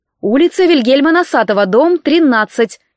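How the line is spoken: Cheerful dictation. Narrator (Russian): весело продиктовала я

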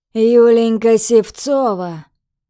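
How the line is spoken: Icy, through gritted teeth. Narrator (Russian): Процедил начальник своим фирменным ледяным тоном

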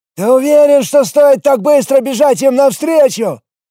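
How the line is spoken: Shouted. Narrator (Russian): прокричал он

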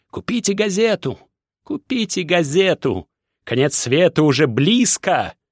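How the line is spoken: Thin, squeaky shouting. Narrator (Russian): кричал он своим тонким, писклявым голосом

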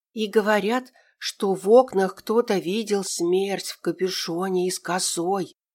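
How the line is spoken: Ominous whisper from corner. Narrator (Russian): раздался зловещий шепот из угла

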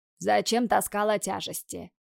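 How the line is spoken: Father grumbling. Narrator (Russian): Заворчал на нее отец

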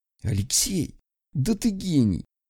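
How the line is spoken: Whisper. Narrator (Russian): прошептал он

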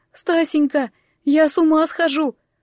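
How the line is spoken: Sobbing. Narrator (Russian): Глафира всхлипнула

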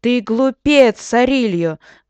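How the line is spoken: Shaking, shouted. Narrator (Russian): закричал он, дрожа всем телом

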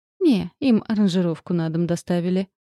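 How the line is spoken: Sighing. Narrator (Russian): вздохнул Снегин

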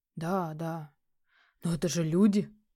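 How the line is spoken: Heated exclamation. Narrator (Russian): горячо воскликнул капитан

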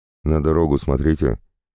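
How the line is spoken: Snorting remark. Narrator (Russian): хмыкнул им вслед Андрей

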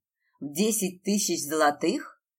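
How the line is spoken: Dragon's growling question. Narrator (Russian): рыкнул, уточняя дракон

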